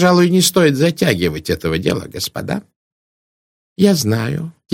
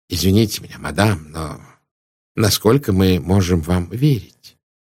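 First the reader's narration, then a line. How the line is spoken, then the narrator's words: Very gentle speech. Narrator (Russian): Пуаро говорил очень мягко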